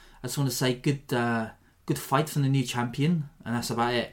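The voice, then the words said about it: Poor Afrikaans accent drifting Welsh. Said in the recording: “I'm not very good at the Afrikaans pronunciation ... I'm not too good at doing that accent, as you can tell from my impression here ... I'm starting to sound Welsh”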